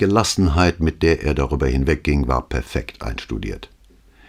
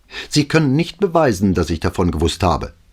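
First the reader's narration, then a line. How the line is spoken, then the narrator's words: Furious outburst. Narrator (German): Da vergaß sie sich vollends und rief aufgebracht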